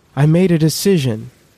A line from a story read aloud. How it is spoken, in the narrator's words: he had to shout over the waves